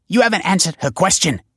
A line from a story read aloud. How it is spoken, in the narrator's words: snapped Val